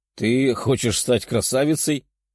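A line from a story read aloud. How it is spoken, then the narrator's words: Chuckled. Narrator (Russian): хохотнул демон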